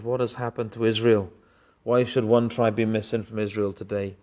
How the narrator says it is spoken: cried

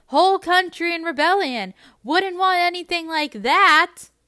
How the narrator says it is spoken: She throws back her head and shouts

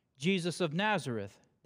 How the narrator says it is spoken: they replied

